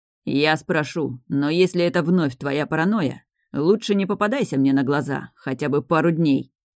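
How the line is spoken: Irritated grumble. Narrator (Russian): раздраженно буркнул дракон

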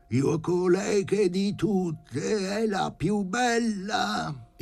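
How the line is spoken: Sizzling voice, beaming. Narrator (Italian): intonò il paziente con voce sfrigolante come una padella e, raggiante

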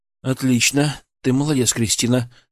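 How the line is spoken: Even, calm tone. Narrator (Russian): сказал ровным, спокойным тоном

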